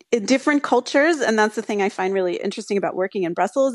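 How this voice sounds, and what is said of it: American English accent. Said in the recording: “as you can hear from my accent, I'm American”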